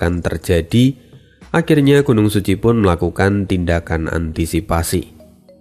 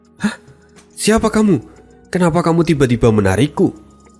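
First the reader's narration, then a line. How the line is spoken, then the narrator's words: Panicked woman. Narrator (Indonesian): kata wanita itu dengan panik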